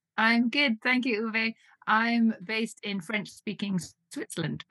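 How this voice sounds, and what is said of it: British English accent. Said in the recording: “you may tell from my accent, I'm originally from the UK”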